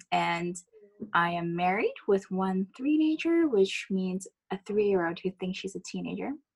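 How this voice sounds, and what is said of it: American accent. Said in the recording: “if you're wondering where my accent is from, I am American, which is why you hear this.”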